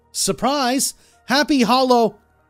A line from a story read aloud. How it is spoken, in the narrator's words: yelling